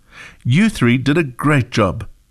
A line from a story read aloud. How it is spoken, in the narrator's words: said the teacher